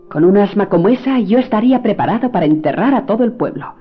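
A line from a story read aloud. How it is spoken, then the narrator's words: Doctor shouting. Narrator (Spanish): El médico gritando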